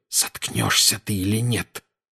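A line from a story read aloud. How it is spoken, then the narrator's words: Hissed. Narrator (Russian): прошипел Гарри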